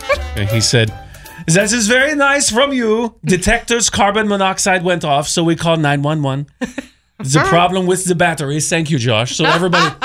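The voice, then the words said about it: Put-on French accent, done well. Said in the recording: “I will read to you what he said in a French accent ... That was a really good accent.”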